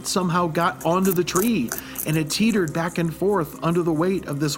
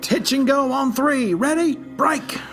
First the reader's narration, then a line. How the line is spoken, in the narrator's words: Russell pleaded to the heavens